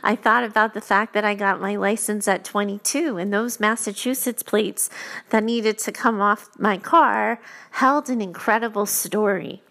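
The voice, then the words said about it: Emotional, near-tearful voice. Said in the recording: “I'm going to get emotional talking to you now.”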